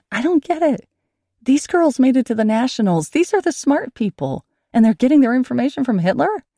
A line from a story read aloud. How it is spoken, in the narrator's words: My mother sighed, a long, tired sigh